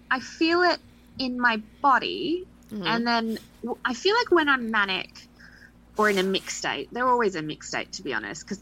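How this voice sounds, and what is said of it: Noticeable foreign accent. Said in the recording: “Sometimes the accent still gets me.”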